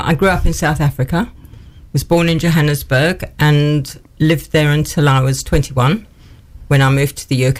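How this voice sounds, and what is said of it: South African accent. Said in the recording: “that is not a Newark accent that we can hear coming through”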